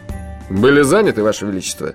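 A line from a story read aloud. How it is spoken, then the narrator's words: Snide question. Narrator (Russian): ехидно осведомился Джуфин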